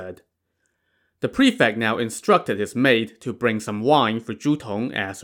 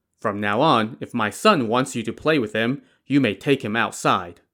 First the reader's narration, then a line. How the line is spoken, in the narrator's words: the prefect said